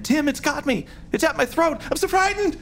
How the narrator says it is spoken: Brenda shrieked again

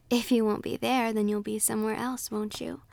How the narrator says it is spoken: laughed the fairy

